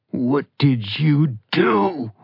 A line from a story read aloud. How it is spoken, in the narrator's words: Ronan snarled